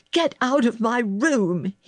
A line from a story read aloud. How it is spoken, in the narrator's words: he cried